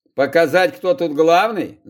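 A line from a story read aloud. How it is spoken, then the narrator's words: Snorted. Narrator (Russian): Захар хмыкнул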